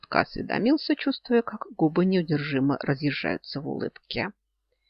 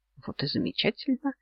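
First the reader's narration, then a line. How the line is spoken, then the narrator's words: Quiet snort nearby. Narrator (Russian): рядом тихонько хмыкнул Йен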